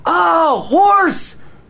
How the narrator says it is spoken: yelled

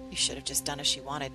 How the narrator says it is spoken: he murmured under his breath

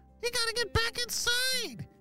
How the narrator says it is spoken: shouted the purple ninja

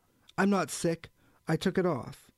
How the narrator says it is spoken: Pouchet, who said more loudly

